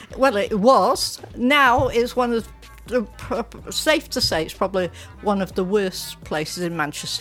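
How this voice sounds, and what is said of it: Manchester English accent. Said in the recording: “your accent's very different to mine ... Originally I'm from Gorton. ... Gorton, is that a nice place in Manchester?”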